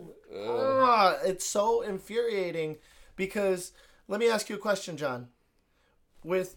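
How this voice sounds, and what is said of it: Usual voice. Nothing is said of it.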